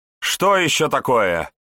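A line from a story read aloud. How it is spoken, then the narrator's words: Irritated bark. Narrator (Russian): раздраженно рявкнул епископ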